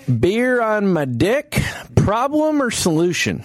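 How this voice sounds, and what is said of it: Put-on southern accent. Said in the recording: “I gave him a southern accent”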